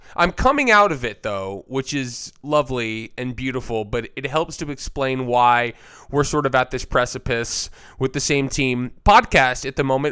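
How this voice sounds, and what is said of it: Voice sounds sick. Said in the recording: “As you can maybe tell by my voice, I am sick.”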